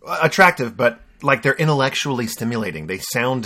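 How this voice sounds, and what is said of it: Usual voice. Nothing is said of it.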